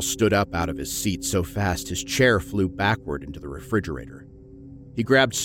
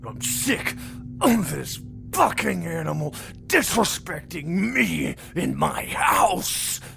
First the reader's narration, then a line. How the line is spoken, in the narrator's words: Carl snarled drunkenly